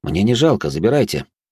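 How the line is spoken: Calm. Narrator (Russian): спокойно произнес я

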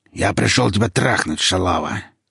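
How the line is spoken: Nasty hoarse voice. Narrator (Russian): сообщил он своим противным хриплым голосом

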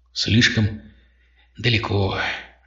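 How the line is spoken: Sigh. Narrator (Russian): вздохнул он

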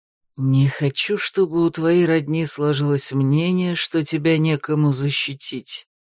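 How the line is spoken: Conspiratorial whisper in ear. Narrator (Russian): заговорщицки шепнул Ригард ей на ухо

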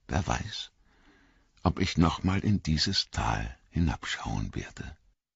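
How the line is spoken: Quiet, soft. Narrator (German): sagte er leise

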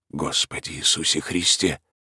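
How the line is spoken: Surprised, frightened mutter. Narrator (Russian): пробормотал кукушка с удивлением и страхом

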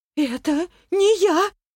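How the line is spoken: Trembling, faltering babble. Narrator (Russian): дрожащим голосом пролепетала Наталья

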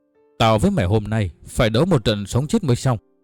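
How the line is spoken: Angry, ashamed speech. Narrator (Vietnamese): Dương Mục nghe Lỗ Đạt nhắc lại chuyện xấu hổ của mình, tức giận nói

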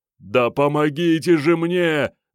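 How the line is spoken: Yelling. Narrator (Russian): заорал Алексей Валентинович

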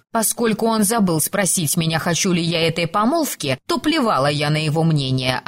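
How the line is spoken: Snorting reply. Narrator (Russian): ответила я, фыркнув

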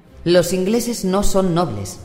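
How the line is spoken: Furious retort. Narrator (Spanish): espetó con el rostro enrojecido por la furia

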